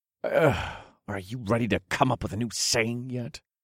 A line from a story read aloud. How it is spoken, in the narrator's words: I grumbled